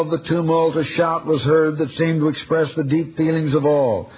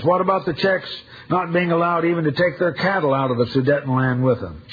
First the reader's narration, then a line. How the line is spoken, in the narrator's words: Chamberlain asked